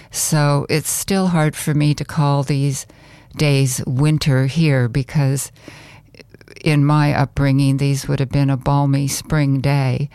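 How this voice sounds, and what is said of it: North Country accent. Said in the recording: “You can probably tell from this accent, I'm from the North Country.”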